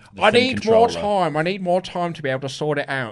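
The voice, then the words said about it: Impression of another person's voice. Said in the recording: “That's a very good Randy impression.”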